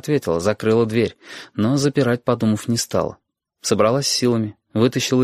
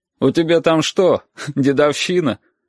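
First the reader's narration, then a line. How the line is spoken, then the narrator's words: Laughing. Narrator (Russian): Оксана смеялась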